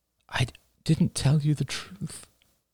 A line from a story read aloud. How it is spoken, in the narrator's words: murmured Rachel